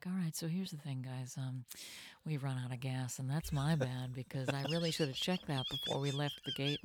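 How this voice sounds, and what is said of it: Soft, calm, whispery pilot voice. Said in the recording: “the pilot tone of voice ... whispering ... It's an NPR voice ... that NPR voice”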